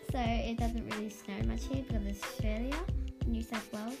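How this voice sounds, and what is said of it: Australian accent. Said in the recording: “I was born in Australia, as you can see by my accent.”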